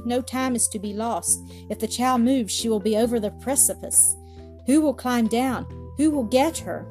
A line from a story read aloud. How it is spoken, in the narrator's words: he said faintly